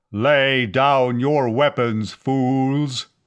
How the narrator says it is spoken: the amplified voice boomed at them

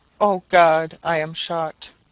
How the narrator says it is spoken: He staggered forward and fell, exclaiming as he did so

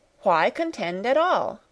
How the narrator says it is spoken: cried Sarah impatiently

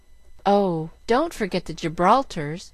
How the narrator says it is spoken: cried Jill

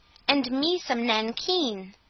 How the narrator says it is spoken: said the second

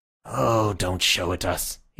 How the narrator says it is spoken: said wearily

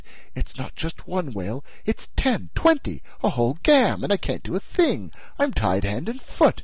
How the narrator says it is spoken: he exclaimed

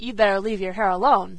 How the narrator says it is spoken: said Dan gruffly

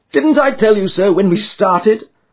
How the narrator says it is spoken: cried Sherlock Holmes with a laugh

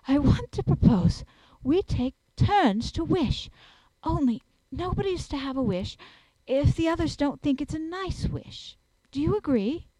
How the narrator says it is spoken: Anthea, breathless from the scurry of that slipping, panted out

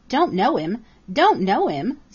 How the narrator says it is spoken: sputtered Jenny

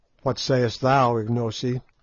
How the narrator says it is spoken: I asked

